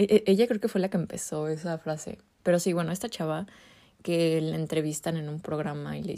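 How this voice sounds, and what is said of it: Usual voice. Nothing is said of it.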